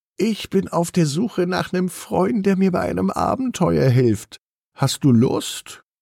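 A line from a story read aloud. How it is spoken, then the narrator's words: Excited purr. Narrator (German): schnurrt aufgeregt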